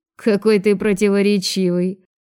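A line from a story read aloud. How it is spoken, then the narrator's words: Snide. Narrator (Russian): ехидно проговорил Лёня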